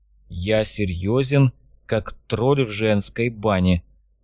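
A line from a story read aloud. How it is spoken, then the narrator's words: Flat even voice, young man. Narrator (Russian): ровным голосом произнес юноша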